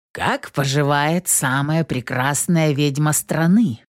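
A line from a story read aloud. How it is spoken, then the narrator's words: Playful question. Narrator (Russian): игривым голосом спросил Колин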